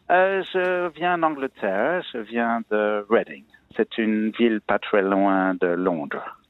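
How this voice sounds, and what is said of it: English accent speaking French. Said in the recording (French): “votre accent d'un atavisme anglo-saxon”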